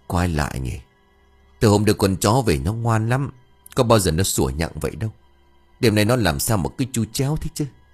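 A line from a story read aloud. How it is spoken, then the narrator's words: Muttering. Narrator (Vietnamese): ông Cần lẩm bẩm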